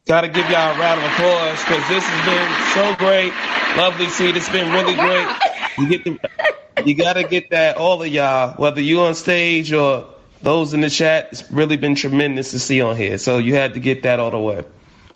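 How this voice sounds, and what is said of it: Brooklyn New York accent. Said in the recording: “I hear that accent.”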